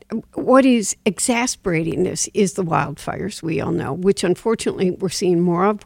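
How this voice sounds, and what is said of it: Strained voice with a cough. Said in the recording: “as you can hear in my voice, sure, and my cough, I've had a real increase”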